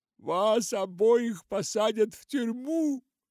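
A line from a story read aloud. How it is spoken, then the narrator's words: Sobbing lost soul. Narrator (Russian): всхлипывал заблудшая душа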